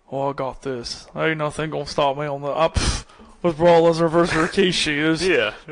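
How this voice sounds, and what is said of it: Imitates another person's voice. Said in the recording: “That's your impression of me?... Oh, it's a good one.”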